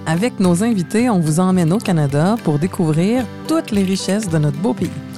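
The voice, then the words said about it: Québécois French accent. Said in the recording (French): “en québécois ... Vous entendez mon accent. Je suis de Montréal.”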